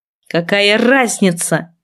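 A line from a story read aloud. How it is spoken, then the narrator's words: Growled. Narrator (Russian): рыкнул Сиэн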